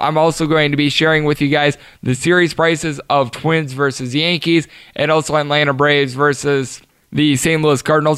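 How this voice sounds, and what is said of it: Strained, failing voice. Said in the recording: “my voice is starting to go on me”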